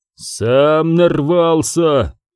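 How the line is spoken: Low muffled growl. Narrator (Russian): глухо прорычал Канис

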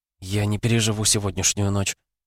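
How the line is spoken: Whispered. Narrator (Russian): прошептала она

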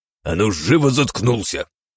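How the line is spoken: Growled. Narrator (Russian): прорычал унтер-офицер

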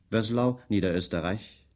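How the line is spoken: Dry asking. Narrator (German): fragte er trocken

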